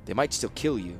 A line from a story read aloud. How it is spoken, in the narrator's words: the apprentice said